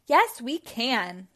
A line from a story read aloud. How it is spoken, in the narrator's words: exclaimed